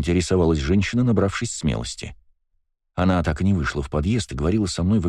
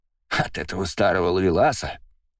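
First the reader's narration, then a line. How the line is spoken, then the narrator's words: Woman's snort. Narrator (Russian): хмыкнула женщина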